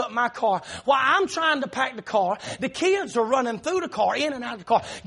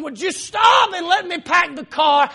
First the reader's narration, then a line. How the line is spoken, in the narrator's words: frustrated and start raising your voice, and you start yelling